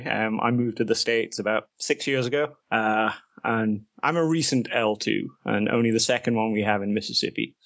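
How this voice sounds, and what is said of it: English accent. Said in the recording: “I'm originally from England, as my accent may give away.”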